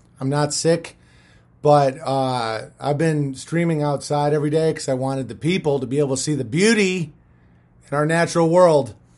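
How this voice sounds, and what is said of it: Hoarse, strained voice. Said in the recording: “As you can hear, I'm losing my voice”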